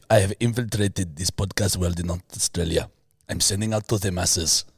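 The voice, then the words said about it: Put-on Russian accent. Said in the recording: “what's a Russian accent?”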